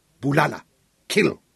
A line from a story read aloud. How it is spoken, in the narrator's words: Isaac snapped